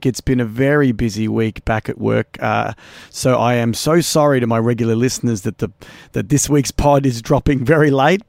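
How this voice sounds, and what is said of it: Slightly hoarse, worn voice. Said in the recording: “You can kind of hear in my voice, I've lost my voice a little bit.”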